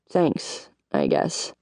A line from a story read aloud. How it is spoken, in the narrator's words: I frowned and muttered